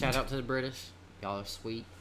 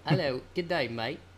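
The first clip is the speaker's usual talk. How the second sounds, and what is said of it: Poor put-on British accent. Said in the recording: “British accent? ... Just sounds like a hillbilly trying to fucking sound like a British person.”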